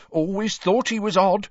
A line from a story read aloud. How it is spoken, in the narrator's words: she told the eagerly listening villagers after her fourth sherry